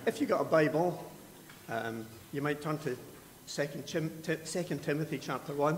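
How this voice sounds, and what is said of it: Speaks with a noticeable accent. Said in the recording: “you can listen to my lovely accent if you want. And if you don't understand it, talk to me afterwards.”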